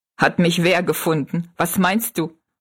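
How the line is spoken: Laughing question. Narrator (German): fragte Jinks lachend

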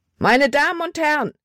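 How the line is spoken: Shouting. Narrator (German): schrie

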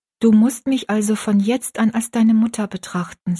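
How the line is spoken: Plain. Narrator (German): sagte Frau Leslie

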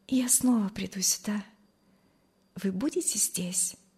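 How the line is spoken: Quiet, shy. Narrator (Russian): сказала она тихо и залилась румянцем

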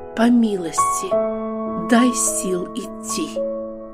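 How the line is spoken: Silent heartfelt whisper. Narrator (Russian): Хананиянка только сердцем прошептала

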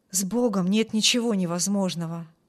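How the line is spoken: Plain. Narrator (Russian): сказал отец

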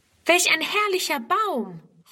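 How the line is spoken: Exclaiming. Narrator (German): ruft Friedrun sogleich

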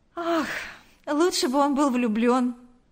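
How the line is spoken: Sighing. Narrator (Russian): вздохнула секретарша

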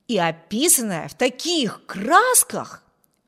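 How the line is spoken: Exclaiming. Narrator (Russian): воскликнул Виберт

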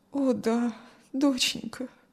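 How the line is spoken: Sad mother's reply. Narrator (Russian): грустно ответила мать

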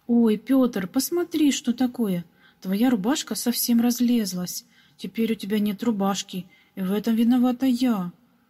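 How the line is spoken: Sudden regretful exclamation. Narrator (Russian): Вдруг с сожалением воскликнула маленькая прачка

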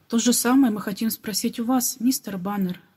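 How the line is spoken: Plain. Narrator (Russian): ответил Нет

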